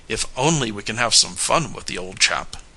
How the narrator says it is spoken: sighed Tom

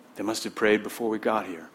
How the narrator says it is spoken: said another

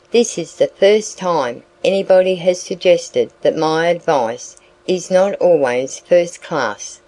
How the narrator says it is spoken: he croaked

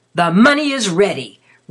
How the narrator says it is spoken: roared Lazarus

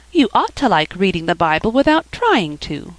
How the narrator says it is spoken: exclaimed Felicity

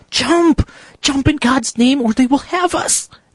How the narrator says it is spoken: cried Graham's guide, and in the violence of his passion

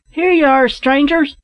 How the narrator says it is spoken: they cried

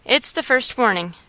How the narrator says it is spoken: said he

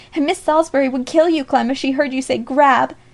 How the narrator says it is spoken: groaned Alexia in between

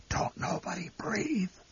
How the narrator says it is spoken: The old man whispered hoarsely

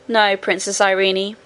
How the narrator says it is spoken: said Curdie

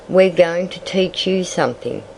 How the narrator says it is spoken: said Jimmy

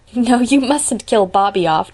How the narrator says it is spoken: declared Diana, laughing

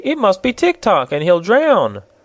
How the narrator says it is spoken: cried Betsy

